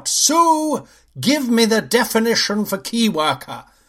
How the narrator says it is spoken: In a moment of rage, I suddenly yell out

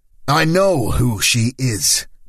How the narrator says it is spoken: Paolo snapped

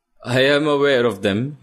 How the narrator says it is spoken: he laughs

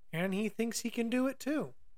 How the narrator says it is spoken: sighed Noogumi

